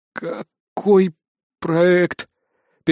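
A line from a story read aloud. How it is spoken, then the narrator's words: Dry, strained voice. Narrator (Russian): Пересохшим голосом мне удалось выдавить из себя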